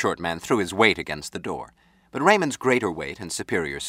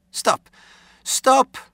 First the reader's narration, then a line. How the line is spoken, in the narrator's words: Zilkoff cried